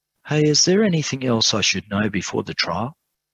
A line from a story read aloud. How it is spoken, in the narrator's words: asked quietly